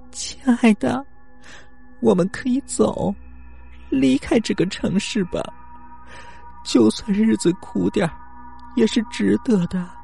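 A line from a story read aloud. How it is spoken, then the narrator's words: Crying. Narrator (Chinese): 一向顺从的小新哭着说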